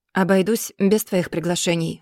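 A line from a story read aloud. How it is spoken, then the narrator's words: Dry reply. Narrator (Russian): сухо отвечает Арген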